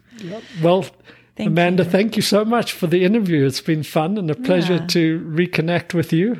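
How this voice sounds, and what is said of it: South African accent. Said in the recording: “Your first South African interview ... I love your accent. I love that you still have this cute accent.”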